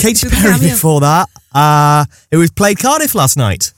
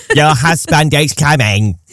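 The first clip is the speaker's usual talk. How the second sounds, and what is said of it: Imitates another person's voice. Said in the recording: “quite a good impression, actually. I surprised myself... That came out better than I expected.”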